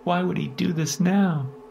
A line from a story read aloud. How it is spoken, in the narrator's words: Diana whimpered and sobbed, breaking down more and more